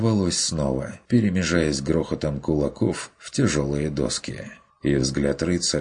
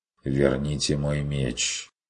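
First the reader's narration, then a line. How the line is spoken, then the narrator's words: Quiet demand, knight. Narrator (Russian): потребовал рыцарь тихо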